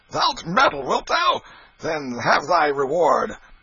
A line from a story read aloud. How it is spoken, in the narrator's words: Canty roared out